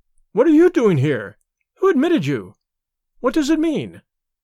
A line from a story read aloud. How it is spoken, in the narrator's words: she cried